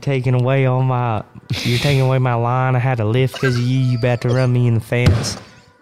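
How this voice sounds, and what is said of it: Imitates another person's voice. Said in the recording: “Just like, just straight up like that South was, Boston. ... That was great. No, Jim Burton impression. ... Good impersonation, by the way. ... That was a great impersonation.”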